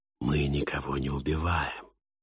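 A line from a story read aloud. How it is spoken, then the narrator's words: Hoarse whisper. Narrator (Russian): раздался в ответ хриплый шепот Синга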